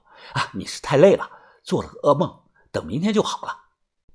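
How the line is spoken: Soft comforting. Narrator (Chinese): 我 … 轻声的安慰的说

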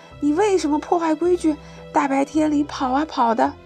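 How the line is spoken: Loud shout. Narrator (Chinese): 狮王大声叫

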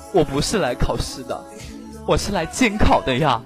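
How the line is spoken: Crying. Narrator (Chinese): 娇娇很哭着就说了

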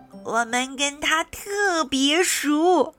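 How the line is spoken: Loud plant spirit. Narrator (Chinese): 植物精灵大声说

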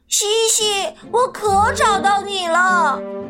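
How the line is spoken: Loud shout. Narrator (Chinese): 我大声喊

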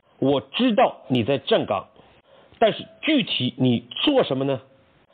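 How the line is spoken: Suppressed anger, emphatic question. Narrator (Chinese): 将军强压怒火，再次强调问道

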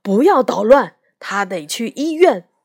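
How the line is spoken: Angry father shouting. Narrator (Chinese): 爸爸根本不相信他的话，生气地喊道

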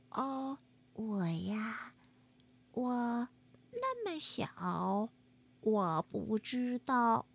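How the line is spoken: Thin small voice. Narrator (Chinese): 小蚂蚁的声音细细的，他说

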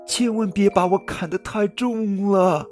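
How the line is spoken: Tiny pleading voice. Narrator (Chinese): 一个很细很细的声音央求他说

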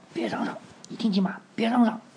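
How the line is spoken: Angry low whisper. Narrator (Chinese): 阿拉维斯 愤怒地 低声说道

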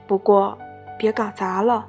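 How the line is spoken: Reluctant quiet aside. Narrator (Chinese): 克罗扎让步了，但连他自己也不知道为什么会小声地说上一句

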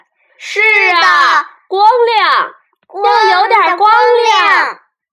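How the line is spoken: Crowd shouting together. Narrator (Chinese): 大家也一起叫起来

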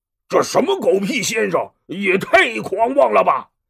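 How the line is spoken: Furious. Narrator (Chinese): 张飞大怒，冲着关羽说

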